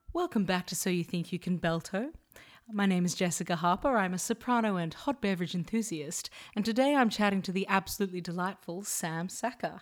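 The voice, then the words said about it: Polished put-on phone voice. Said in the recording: “I only used my phone voice that one time and I'll go back to normal speaking.”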